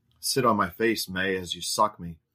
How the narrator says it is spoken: he instructed

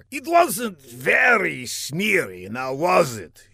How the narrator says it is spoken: he replied with a sneer

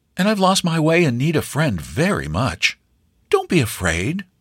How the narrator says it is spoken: the stranger said kindly

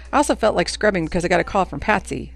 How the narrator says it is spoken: sighed and then said

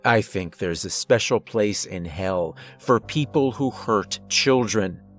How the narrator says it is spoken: I growled

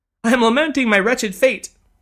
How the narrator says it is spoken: sobbed the lady, once again on the verge of tears

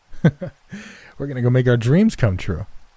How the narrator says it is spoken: They laughed and said

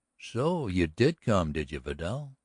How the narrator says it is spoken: There was a jeer in the heavy voice

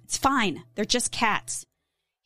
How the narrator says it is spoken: he snapped

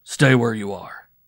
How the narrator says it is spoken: said roughly

